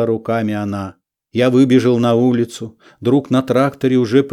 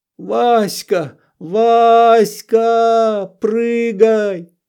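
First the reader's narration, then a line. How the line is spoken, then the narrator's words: Yelling in adult-like voice. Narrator (Russian): заорал недетским голосом я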